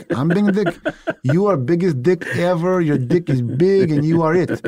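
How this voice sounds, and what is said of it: Put-on Russian accent. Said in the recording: “I can do a Russian accent.”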